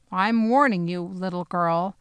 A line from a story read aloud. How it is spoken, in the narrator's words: the soldier growled at me